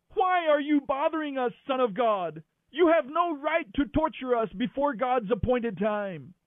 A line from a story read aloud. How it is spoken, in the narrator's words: They began screaming at him